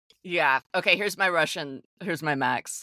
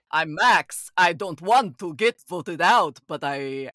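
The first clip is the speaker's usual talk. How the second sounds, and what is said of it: Put-on Russian accent. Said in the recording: “I cannot do a Russian accent. You have to do it.”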